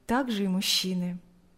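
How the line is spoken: Smiling, sighing. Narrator (Russian): сказал Алексей с улыбкой и вздохнул

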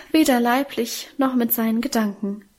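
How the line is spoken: Emotional sigh. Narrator (German): seufzte unser Minchen gefühlvoll

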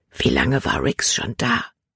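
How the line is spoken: Whisper. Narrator (German): flüsterte sie

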